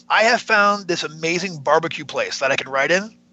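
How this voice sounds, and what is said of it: Whispering. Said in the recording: “I'm gonna whisper this”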